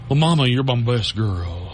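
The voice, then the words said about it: Elvis-style accent. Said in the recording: “the Elvis accent”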